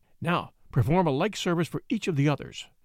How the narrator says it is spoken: whispered the abbot, curtly

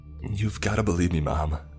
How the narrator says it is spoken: I pleaded

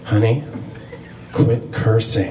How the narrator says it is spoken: my mom whispered in my ear

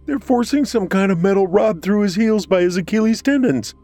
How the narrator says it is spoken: Peter yelled, his voice cracking

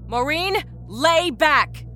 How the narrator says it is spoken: Rita shouted

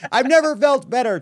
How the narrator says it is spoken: Trump shouted

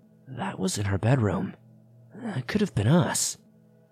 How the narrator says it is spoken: my mom looking at my dad and murmuring

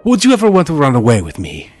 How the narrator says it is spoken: She blurted out

